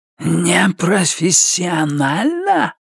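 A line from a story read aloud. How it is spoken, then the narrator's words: Hissing. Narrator (Russian): прошипел он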